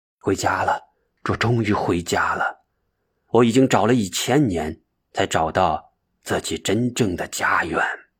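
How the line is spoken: Intimate murmuring to himself. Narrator (Chinese): 他像是对着亲人倾诉一样的喃喃自语

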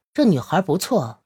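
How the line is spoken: Leisurely. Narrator (Chinese): 小 A……悠悠的说了一句

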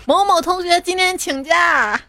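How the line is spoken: Shouted in unison. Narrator (Chinese): 那个班的方向同学齐声大喊

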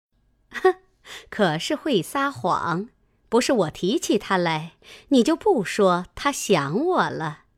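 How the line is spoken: Laughing. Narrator (Chinese): 凤姐笑道

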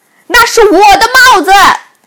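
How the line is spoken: Shouted. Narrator (Chinese): 口里喊道

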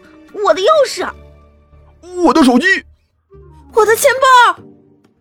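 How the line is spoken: Shouting. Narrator (Chinese): 这一喊

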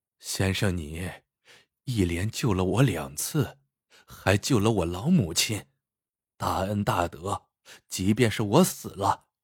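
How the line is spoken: Weak, smiling. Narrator (Chinese): 汉子微弱的笑道

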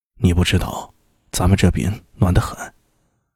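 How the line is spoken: Hushed voice. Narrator (Chinese): 周良 压低声音说道

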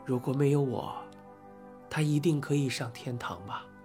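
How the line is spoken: Low voice. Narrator (Chinese): Alex 低声说

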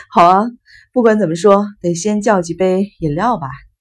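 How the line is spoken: Hearty laughter. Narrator (Chinese): 生一郎哈哈大笑

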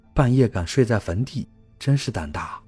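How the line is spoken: Quiet villager. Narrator (Chinese): 一个村民小声地说

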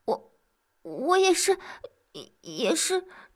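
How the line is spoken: Embarrassed, quiet explaining. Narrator (Chinese): 小环拿了个空，又着他这么一说，不免涨红了脸，小声解释着

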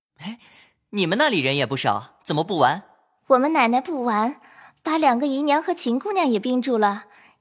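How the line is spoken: Laughing. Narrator (Chinese): 宝玉笑道

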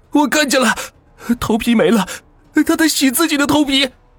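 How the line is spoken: Screaming. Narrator (Chinese): 王可放声大叫

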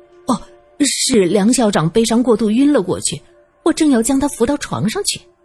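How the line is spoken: Hurried. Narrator (Chinese): 孔丽人急忙就说

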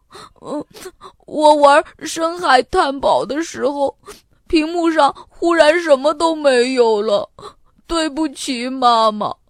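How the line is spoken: Tearful. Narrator (Chinese): 带着哭腔说

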